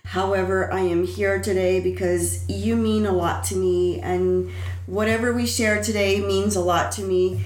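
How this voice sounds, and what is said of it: Deeper, harsher sick-sounding voice. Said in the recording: “I got a throat infection ... As you can tell, my voice is a little bit deeper, it's a little bit harsher.”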